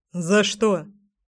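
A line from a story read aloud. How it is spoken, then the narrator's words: Snorting, skeptical. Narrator (Russian): хмыкнул мой Гром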